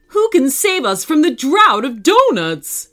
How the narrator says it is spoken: cried the police

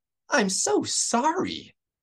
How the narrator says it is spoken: she gasped

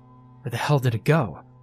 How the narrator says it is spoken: asked Phil

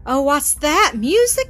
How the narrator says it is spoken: cried the little ones

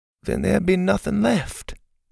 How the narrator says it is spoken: Pa said quietly

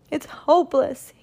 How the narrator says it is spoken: he cried

